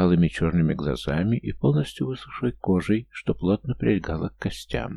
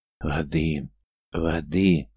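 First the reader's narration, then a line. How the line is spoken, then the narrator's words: Hoarse. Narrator (Russian): прохрипел человек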